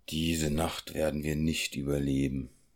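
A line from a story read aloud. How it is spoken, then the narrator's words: Sighing. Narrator (German): sagte er seufzend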